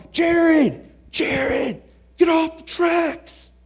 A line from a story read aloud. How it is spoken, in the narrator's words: they start yelling